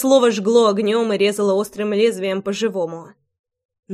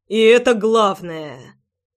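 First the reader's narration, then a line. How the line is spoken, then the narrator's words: Angry words through teeth. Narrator (Russian): процедил гневно Роман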